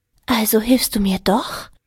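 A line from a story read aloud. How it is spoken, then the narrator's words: Hopeful whisper. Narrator (German): flüsterte sie hoffnungsvoll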